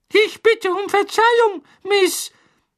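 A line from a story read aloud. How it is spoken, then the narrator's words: Squeaky house-elf voice. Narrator (German): piepste der Hauself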